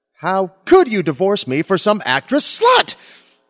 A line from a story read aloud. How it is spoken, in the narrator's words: shouted my Lily